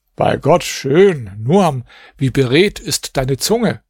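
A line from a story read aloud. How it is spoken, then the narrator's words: Called out, caliph. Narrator (German): Der Kalif rief, als er diese Verse gehört hatte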